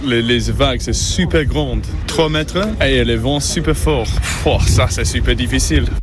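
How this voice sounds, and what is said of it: British accent speaking French, phlegmatic. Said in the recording (French): “l'accent so british et un peu de flegme dans la voix”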